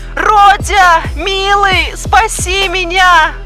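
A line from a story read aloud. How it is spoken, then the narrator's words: Shouting over phone. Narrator (Russian): кричал голос в трубке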